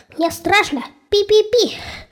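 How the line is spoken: Little mouse squeaking. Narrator (Russian): запищал мышонок

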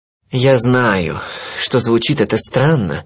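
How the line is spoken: Sigh. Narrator (Russian): вздохнул он

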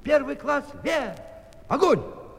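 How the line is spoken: Shouting with all his might. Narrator (Russian): закричал, что было сил

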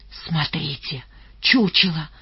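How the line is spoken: Whisper. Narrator (Russian): почему-то шепотом произнес Рыжий

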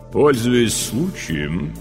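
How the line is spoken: Slow low chest voice. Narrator (Russian): вдруг медленно заговорила судья Карагаева низким грудным голосом

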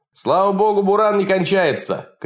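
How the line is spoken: Full-voiced shout. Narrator (Russian): кричал уже во весь голос Егор Беляев

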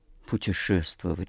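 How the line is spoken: Mumbled while stretching. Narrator (Russian): пробормотал нотариус, потягиваясь

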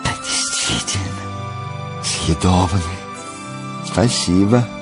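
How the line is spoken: Coquettish mutter. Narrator (Russian): пробормотала Нюша кокетливо

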